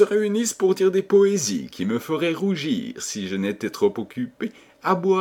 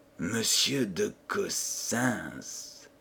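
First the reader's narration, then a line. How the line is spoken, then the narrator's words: Murmured. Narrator (French): murmura-t-il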